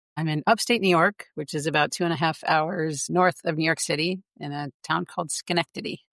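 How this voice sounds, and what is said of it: Non-British accent. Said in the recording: “I'm guessing from the accent, you're not in the UK.”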